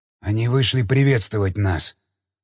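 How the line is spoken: Whisper. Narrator (Russian): прошептал он

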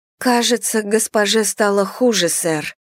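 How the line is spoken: Unusually trembling voice. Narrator (Russian): сказала она необычно подрагивающим голосом

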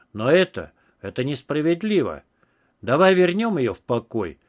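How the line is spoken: Pleading exclamation. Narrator (Russian): воскликнул я, пытаясь воззвать к его разуму

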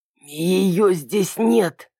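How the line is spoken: Hoarse male voice. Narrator (Russian): прохрипел другой мужской голос

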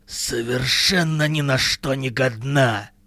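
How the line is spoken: Hissing. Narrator (Russian): прошипела

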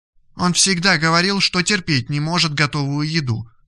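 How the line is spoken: Plain. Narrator (Russian): ответила Ада

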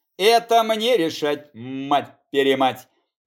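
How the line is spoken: Growling, clear Russian, Italian. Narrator (Russian): на очень чистом и доступном русском рычал итальянец

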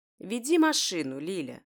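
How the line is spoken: Calm reply. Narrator (Russian): Спокойно отвечает мамуля

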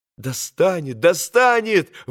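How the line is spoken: Exclamation. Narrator (Russian): воскликнул Алеша

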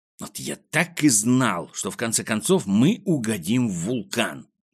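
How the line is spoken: Grumbling. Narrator (Russian): проворчал Пончик

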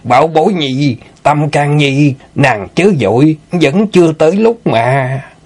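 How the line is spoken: Gleeful laughing. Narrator (Vietnamese): Mai lão bản cười hớn hở nói

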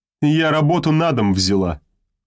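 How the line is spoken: Cold woman's reply. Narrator (Russian): холодно ответила женщина

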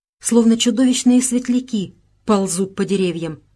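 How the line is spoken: Exclaiming. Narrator (Russian): воскликнула Беатрис

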